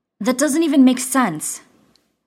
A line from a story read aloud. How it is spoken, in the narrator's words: Jack snapped, frustrated